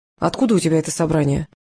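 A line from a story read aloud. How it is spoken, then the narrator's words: Quiet question. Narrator (Russian): негромко спросил Карпов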